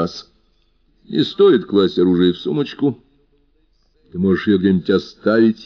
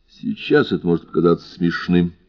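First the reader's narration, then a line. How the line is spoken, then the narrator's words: Calm. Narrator (Russian): спокойно заметил я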